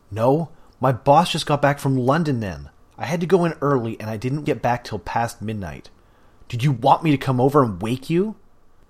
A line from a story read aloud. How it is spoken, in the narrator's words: He shouted at her without meaning to